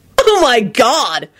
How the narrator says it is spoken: Henry shouted furiously

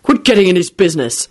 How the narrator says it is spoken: snapped Quentin to Solange

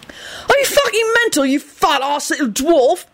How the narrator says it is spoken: He yelled incredulously

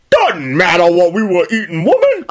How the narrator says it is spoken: Uncle Cotton snapped

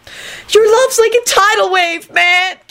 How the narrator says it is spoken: Kenny screeched

